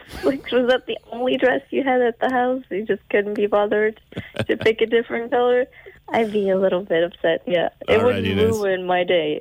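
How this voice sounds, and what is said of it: Portuguese-accented English. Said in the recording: “I love your accent. Your accent has made my morning.”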